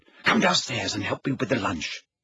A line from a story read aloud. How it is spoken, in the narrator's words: she whispered